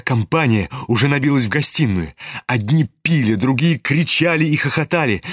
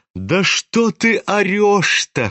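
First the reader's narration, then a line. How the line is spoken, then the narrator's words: Laughing. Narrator (Russian): хохотал на него Настасья Филипповна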